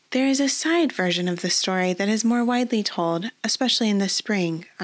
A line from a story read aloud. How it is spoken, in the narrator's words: Amelie said